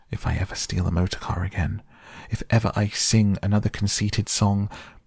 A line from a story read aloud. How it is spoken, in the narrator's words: gasped the poor toad